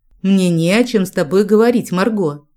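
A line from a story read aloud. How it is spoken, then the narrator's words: Cold, curt. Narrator (Russian): Холодно отрезал лорд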